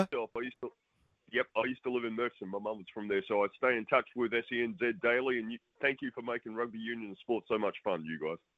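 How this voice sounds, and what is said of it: Noticeable accent. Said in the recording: “Oh, I love that accent.”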